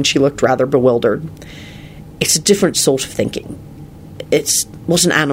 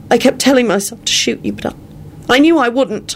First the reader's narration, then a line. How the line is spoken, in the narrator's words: Elizabeth blurted out